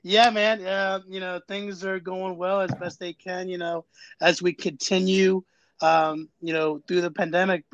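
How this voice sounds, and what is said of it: Baltimore accent. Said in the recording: “I can hear that Baltimore in your accent just now.”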